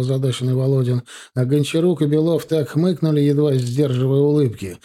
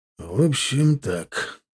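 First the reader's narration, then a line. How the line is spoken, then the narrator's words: Thoughtful. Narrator (Russian): задумчиво сказал Володин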